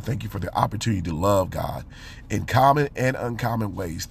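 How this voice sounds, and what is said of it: Voice sounds strained, not its best. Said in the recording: “my voice is not the best today”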